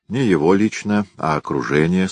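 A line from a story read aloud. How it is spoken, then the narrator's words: Calm reply. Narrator (Russian): спокойно ответил Гуров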